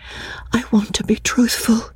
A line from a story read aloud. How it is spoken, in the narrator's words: she whispered